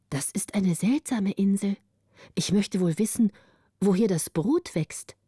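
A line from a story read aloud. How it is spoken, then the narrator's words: Plain. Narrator (German): sagte Camilla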